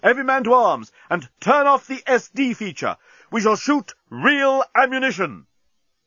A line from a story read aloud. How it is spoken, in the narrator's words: yelled Bolthas